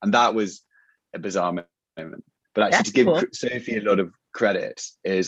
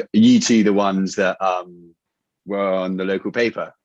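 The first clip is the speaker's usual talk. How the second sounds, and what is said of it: Attempted American accent. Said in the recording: “apologies for attempting an American accent”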